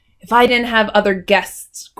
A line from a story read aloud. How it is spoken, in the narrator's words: growled the hotel keeper